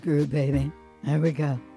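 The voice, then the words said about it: Lowered voice imitating another person. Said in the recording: “Why you gotta drop your voice? ... Barry White. That was my Barry White impression.”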